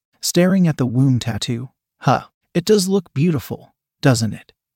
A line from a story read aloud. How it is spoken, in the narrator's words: said with a small laugh